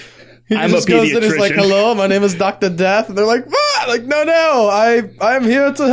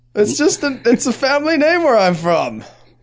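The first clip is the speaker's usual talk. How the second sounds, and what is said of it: Vaguely Germanic put-on accent. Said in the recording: “I don't know what this accent is I'm doing. ... It's vaguely Germanic.”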